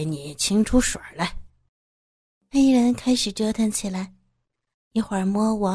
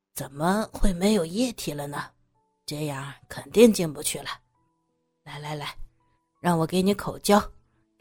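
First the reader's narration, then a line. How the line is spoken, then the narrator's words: Muttering. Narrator (Chinese): 黑人嘟囔着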